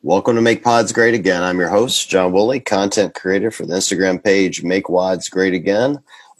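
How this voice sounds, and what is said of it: Hoarse, raspy sick voice. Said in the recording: “as you guys can hear from my very sexy voice. ... I've been sick for a couple of days.”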